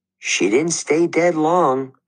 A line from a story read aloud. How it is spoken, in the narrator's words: I said, trying to keep my voice from quivering